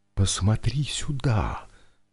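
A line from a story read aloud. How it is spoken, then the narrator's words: Whisper. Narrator (Russian): Марина перешла на шепот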